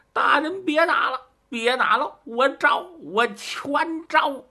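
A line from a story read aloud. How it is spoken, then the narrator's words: Shouting. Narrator (Chinese): 吴越就喊声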